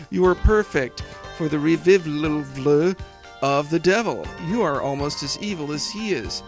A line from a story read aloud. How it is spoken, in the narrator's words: Jezebel laughed and said